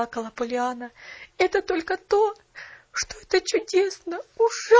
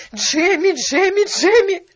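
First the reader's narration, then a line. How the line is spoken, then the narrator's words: Shout. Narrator (Russian): закричала она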